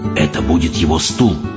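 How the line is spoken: Whisper. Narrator (Russian): прошептал мистер Типс

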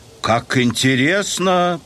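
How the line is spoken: Booming drone. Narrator (Russian): прогудел Генри

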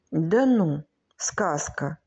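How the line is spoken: Child whispering again. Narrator (Russian): Братик зашептал опять

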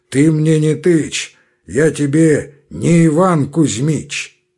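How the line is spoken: Hoarse bass, cutting off. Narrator (Russian): отчаянный обрывал хриплым басом

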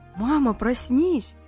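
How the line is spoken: Frightened. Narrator (Russian): испуганно сказал Мумитроль

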